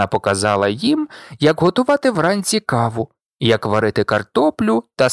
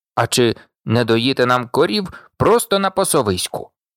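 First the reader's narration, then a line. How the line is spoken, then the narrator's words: Grumbling. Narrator (Ukrainian): буркнув Сем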